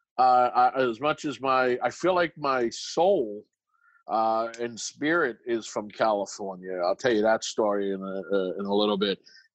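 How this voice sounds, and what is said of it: Slight non-Californian accent. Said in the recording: “I sense a little bit of an accent in your voice, so I'm thinking you're not from California.”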